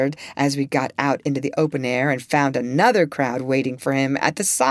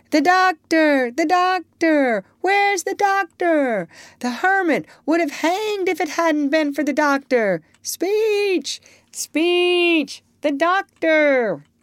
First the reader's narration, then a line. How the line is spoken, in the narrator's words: the crowd shouting